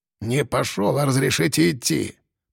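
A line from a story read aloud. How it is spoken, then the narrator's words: Grumbling. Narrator (Russian): пробурчал Кулебякин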